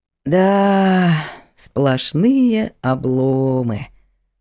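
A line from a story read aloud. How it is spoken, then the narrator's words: Drawling. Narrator (Russian): протянул Влад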